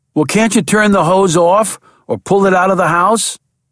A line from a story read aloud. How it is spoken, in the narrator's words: Jack started to run faster as he yelled